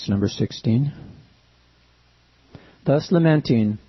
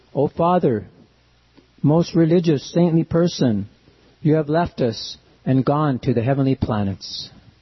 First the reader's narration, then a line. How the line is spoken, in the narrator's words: Virtually bewildered by grief, anger, indignation, affliction, and lamentation, the sons of Jamadagni cried